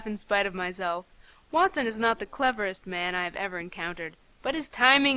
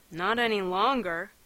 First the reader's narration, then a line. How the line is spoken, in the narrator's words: he returned dryly